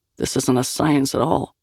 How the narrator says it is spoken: Liam muttered

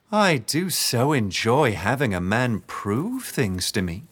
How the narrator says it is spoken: she said, her voice sickly sweet

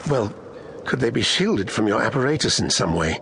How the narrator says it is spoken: she asked desperately

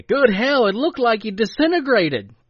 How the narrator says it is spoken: Dwayne exclaimed

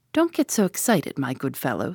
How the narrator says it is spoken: said Tommy calmly

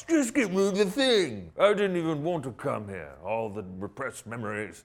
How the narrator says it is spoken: Thor mocks

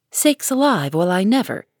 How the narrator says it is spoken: Hannah came in to exclaim

